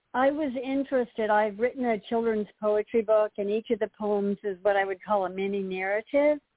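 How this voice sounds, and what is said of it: Congested voice from a cold. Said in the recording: “I have a little bit of a cold”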